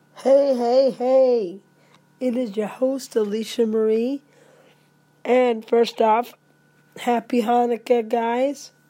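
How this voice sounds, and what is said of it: Hoarse, raspy voice. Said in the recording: “Pay no attention to my voice. Do I sound sexy? ... It's just a little case of laryngitis.”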